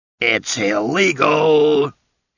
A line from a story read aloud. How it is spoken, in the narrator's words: shouted